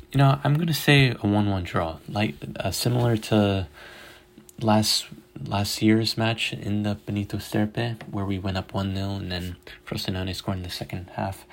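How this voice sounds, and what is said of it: Slightly hoarse, fading voice. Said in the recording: “losing my voice here a little bit”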